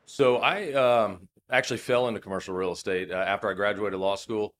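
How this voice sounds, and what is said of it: Worn-out, strained voice. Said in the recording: “as you could probably hear from my voice, it's taken a beating over the last few days”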